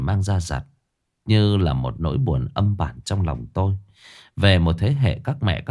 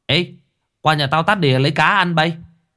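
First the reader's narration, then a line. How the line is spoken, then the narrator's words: Loud shout. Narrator (Vietnamese): Tôi hét to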